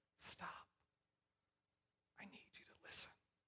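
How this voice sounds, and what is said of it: Quiet, small, calm voice. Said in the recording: “just in that still small voice, just like that”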